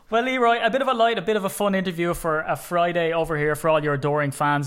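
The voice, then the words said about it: Irish accent. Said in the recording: “little Irishman ... I'd trade two Super Bowls for that accent”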